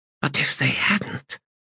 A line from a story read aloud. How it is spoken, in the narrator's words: she whispered